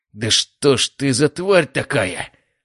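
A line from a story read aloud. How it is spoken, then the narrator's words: Growled from behind. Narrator (Russian): прорычал за моей спиной Мишаня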